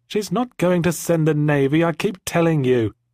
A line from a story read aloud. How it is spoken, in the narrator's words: insisted Jemima, after a tut and a sigh